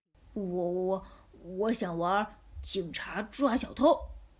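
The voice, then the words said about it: Quiet, timid, stammering voice. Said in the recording (Chinese): “小声的回答”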